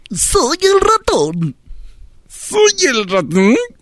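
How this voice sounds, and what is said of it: Put-on character voice from throat. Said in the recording (Spanish): “la cara es aquí, adentro, ver, la garganta... me estás enseñando a hacer voz”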